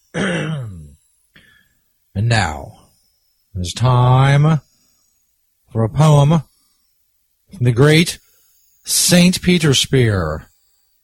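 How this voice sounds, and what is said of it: Announcer voice. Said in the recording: “Let me get my announcer voice.”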